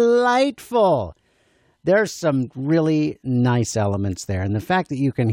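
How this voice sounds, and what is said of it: Usual voice. Nothing is said of it.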